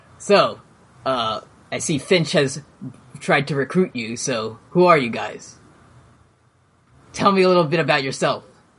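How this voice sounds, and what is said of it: Deep character voice. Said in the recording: “What was the voice I did? ... Deep. ... A deep voice.”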